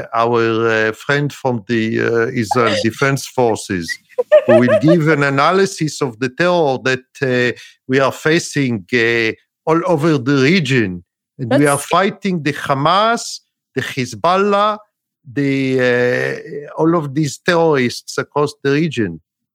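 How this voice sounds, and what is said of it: Put-on foreign accent. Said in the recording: “excellent accent, ... You've done such a good job with that.”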